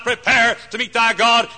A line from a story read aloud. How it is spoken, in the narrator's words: thundered out